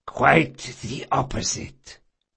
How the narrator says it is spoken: Barsavi whispered

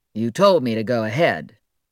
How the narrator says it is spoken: Hayward, a bit put off by being questioned by the defendant, answered gruffly

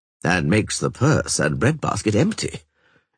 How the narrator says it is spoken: Esterad Tyson muttered

